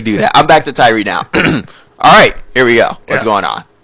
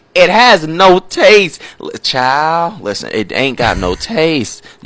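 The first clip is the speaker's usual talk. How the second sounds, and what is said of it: Put-on Southern American accent. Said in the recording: “You making me bring out my Southern. ... let me stop talking Southern. ... I bet you do live reads in that voice. ... In my Southern voice”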